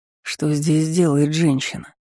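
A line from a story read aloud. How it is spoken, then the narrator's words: Quiet question. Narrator (Russian): спросил один из ситорцев негромко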